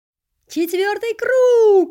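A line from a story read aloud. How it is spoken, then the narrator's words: Crowd yelling and whistling. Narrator (Russian): заорали зрители, засвистели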